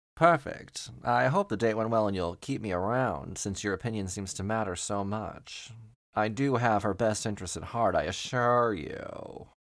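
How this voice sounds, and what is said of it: Weird, shifting put-on accent. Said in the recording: “Your accent's really weird. ... It changes whenever I want it to.”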